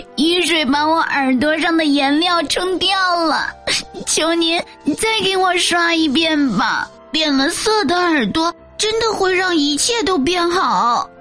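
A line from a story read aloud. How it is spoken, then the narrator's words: Sobbing plea. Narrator (Chinese): 小羊大哭着 央求道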